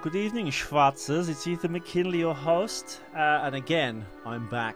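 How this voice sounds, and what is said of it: Distinctive accent. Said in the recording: “I can't compete with your accent, so I'll just stick with mine.”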